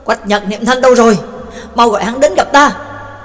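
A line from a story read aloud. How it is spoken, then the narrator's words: Loud commanding shout. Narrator (Vietnamese): Tước Mẫu Vương lại quát lớn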